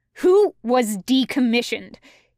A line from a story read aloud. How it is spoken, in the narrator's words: He snaps